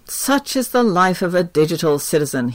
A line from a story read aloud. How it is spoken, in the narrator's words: he sighs